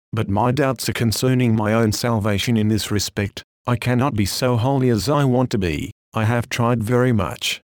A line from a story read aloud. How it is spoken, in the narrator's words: says one